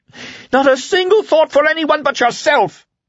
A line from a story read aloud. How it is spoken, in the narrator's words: Carla shouted